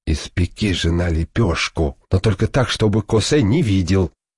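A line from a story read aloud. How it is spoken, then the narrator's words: Whisper. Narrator (Russian): Бай говорит жене шепотом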